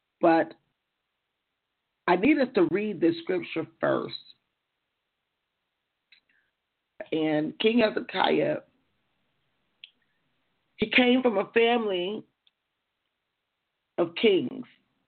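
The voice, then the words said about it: Voice worn from heavy speaking. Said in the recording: “excuse my voice. I've been speaking quite a bit.”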